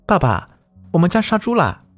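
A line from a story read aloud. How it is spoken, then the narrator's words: Loud question. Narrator (Chinese): 他大声的问道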